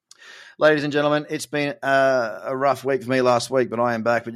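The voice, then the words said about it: Strained, struggling voice. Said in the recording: “you can hear my voice is struggling a little bit”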